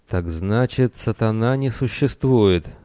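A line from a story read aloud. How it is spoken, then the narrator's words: Muttering. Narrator (Russian): снова пробормотал Ахеец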